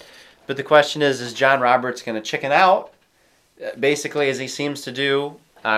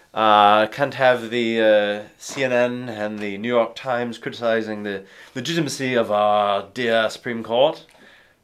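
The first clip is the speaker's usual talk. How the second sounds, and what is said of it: Imitates another person's voice. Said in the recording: “That was a nice impression.”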